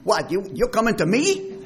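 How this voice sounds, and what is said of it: Put-on Jewish accent. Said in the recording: “Sounds very Jewish. You can hear it put a Jewish accent.”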